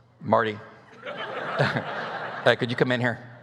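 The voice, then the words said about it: Deep bass voice. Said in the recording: “my dad in his deep bass voice”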